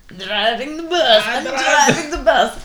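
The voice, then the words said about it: Borat-style weird accent. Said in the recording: “Why are we doing weird accents? ... You sound like Borat.”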